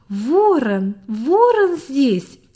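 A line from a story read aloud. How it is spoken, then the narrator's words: Children shouting joyfully. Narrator (Russian): закричали дети так весело, как будто это было в прошлые времена сравнительного благополучия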